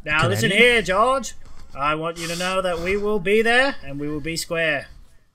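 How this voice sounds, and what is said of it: Imitates another person's voice. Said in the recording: “The Kennedy accent.”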